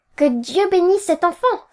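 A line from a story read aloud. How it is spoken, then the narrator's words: Sister's insincere exclamation. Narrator (French): s'écria ma sœur d'un ton qui faisait croire qu'elle pensait tout le contraire de ce qu'elle disait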